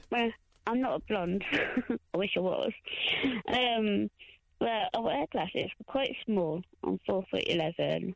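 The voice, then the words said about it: Leicester English accent. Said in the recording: “It's a Leicester. From Leicester. ... everyone says I've got an Essex accent from London. ... Posh Essex.”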